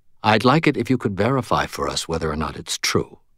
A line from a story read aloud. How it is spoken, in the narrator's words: Murphy said, her voice gentle